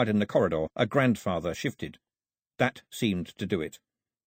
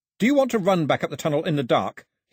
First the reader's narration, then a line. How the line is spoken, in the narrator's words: he shouted as loudly as he could